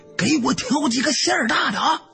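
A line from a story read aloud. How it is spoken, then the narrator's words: Hurried call from behind. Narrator (Chinese): 赶紧在后边喊了一句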